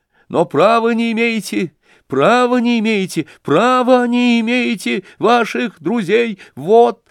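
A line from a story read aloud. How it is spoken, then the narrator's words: Agitated, suspicious babbling. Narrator (Russian): залепетал вдруг снова Бурдовский, и тем более горячас, чем больше не доверял и дичился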